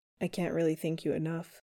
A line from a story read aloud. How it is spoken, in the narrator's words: Chris tells him quietly, like a secret or a confession long kept buried